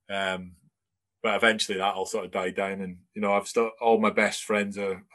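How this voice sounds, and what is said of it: Broad Scottish accent, slightly English. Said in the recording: “You sound really, really Scottish. I think you sound broad Scottish. ... There's some words that come around that sound a bit English ... I've got this weird kind of accent.”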